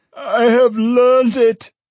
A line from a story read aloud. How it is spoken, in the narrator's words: cried the old man